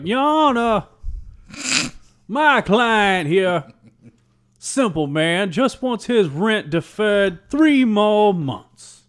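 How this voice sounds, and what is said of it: Put-on old-fashioned Southern drawl. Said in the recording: “if you just go in with a fucking Victorian Southern accent”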